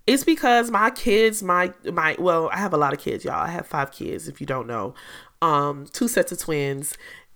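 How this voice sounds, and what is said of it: Slightly raspy voice. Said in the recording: “hear my voice is a little raspy,”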